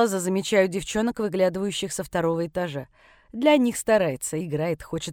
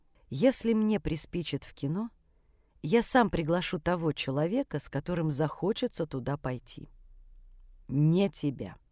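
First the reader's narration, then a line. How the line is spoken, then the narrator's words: Quiet, kept from others. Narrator (Russian): сказал тихо, так, чтобы остальные не слышали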